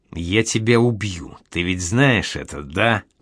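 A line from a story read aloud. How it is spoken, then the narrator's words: Hissed. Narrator (Russian): прошипел он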